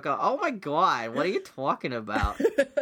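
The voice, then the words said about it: Put-on New York accent. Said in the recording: “ladies with that New York accent ... That New York”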